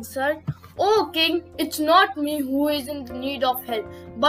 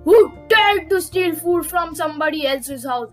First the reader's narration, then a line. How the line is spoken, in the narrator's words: roared King Lion, roared King Leo angrily